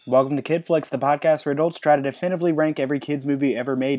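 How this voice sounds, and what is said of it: Sick-sounding voice. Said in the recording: “as you can tell from my voice, I'm a little bit sick ... as you can hear, I'm sick”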